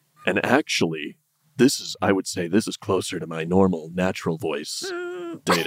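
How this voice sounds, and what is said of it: Imitates a deep singer's voice. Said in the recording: “your Barry White impression”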